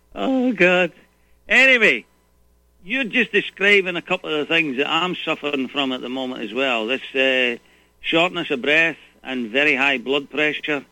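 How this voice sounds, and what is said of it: Scottish accent. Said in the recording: “I love your accent.”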